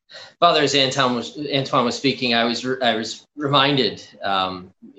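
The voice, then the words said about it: Halting, stammering emotional speech. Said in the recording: “I'm stuttering and stammering over this because it's still impacting me”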